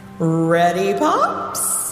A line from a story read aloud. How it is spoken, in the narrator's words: hollered Taylor